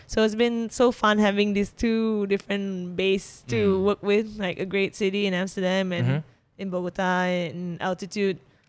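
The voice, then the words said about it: Malaysian accent in English. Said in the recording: “still speak like a Malaysian ... that Malaysian accent ... you can't get that Malaysian accent out. It's just how I pronounce things”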